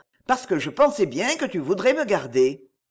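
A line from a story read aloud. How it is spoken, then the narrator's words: Quick, brisk. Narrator (French): dit-il vivement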